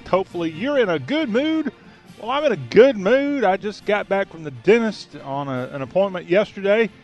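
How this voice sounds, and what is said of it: Southern American accent. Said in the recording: “talk with a Southern accent”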